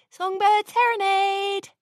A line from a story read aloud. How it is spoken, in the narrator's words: some pony shouted from outside the door